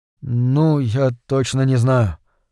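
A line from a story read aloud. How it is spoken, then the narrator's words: Weary. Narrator (Russian): устало проговорил Джон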